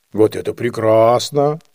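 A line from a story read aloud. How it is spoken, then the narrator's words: Annoyed grumble. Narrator (Russian): проворчал Дюндик с досадою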